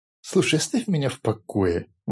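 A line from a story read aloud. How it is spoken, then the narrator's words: Indignant, dismissive. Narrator (Russian): возмущенно отмахнулся Рори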